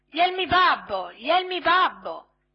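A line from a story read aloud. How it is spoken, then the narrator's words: Piercing shrill shout. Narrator (Italian): Pinocchio cacciò un urlo acutissimo gridando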